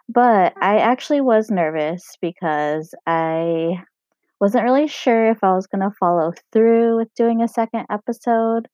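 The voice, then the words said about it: Scratchy, hoarse voice. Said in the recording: “I totally scratched up my throat. And now I'm recording my sexy voice.”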